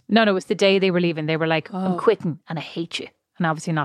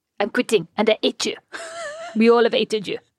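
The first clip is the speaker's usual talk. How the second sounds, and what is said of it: Put-on French accent. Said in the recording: “not in that accent ... Speaking of amazing French accents”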